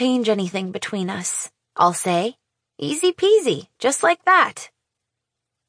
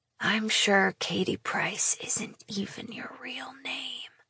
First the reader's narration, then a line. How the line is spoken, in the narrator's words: he whispers